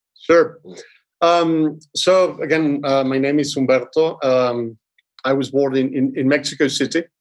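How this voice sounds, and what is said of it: Speaks with a foreign accent. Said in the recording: “people can tell from your accent, you might have some international flair in the background there”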